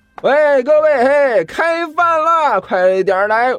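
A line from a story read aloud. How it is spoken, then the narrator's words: Loud shout. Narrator (Chinese): 大声喊道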